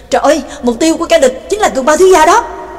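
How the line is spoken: Loud cry. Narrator (Vietnamese): Nhạc Dương thì lớn tiếng kêu lên

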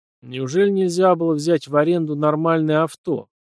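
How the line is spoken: Displeased grumbling. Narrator (Russian): Недовольно буркнул промокший таки под начавшимся дождем убийца

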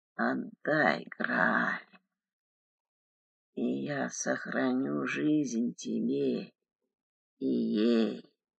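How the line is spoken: Rasping undead voice. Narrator (Russian): прохрипел живой мертвец

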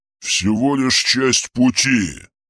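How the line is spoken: Growl. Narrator (Russian): прорычал

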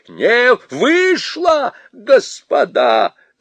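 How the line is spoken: Shouted. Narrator (Russian): закричал

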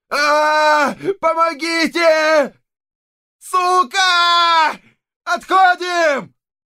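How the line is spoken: Shouting nearby. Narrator (Russian): Кричали невдалеке

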